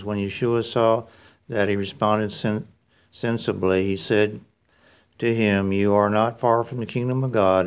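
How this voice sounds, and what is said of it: Texas accent. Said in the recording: “It's hard to say that with a Texas accent.”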